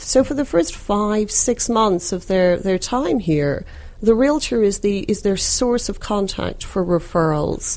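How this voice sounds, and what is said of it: Noticeable non-local accent. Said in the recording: “my accent, you clearly can tell that I'm not from around these parts”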